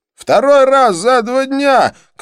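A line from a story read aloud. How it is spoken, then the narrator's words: Shouted after someone. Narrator (Russian): крикнул Хорст мне вслед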